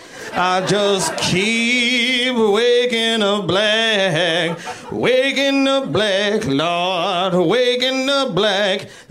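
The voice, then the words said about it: Exaggerated gospel-style preaching voice. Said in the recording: “my impersonation of what white people think it's like to be black ... It's just gospel music”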